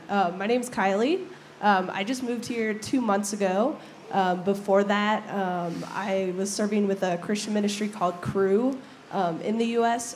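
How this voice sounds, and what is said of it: Strained, fading voice. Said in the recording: “I'm losing my voice, so forgive me on that.”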